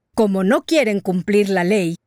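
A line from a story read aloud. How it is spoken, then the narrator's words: Jaguar growling. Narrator (Spanish): gruñó el jaguar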